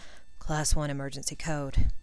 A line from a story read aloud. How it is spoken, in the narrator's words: he muttered